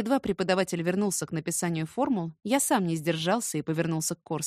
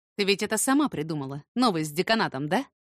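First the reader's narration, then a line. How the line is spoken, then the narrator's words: Angry question. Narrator (Russian): спросил сердито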